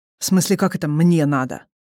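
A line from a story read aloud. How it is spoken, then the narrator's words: Snort. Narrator (Russian): фыркнул Игдал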